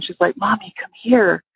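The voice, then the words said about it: Whispered child's plea. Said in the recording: “she's whispering.”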